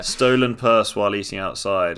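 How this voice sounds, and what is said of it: Put-on accent reading aloud. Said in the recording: “I feel I made progress with the accent, and then I really took a step back there.”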